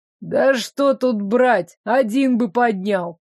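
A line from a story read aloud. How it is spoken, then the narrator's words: Grumbling, squeamish man. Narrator (Russian): проворчал брезгливый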